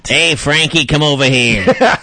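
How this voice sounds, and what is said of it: Put-on New York accent. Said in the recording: “New York accent”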